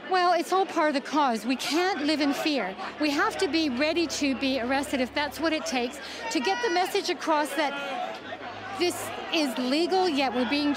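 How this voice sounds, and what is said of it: Canadian accent. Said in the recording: “She's from Canada, hence the accent”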